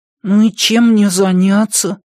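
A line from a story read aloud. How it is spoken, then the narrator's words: Grumbled. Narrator (Russian): пробурчал он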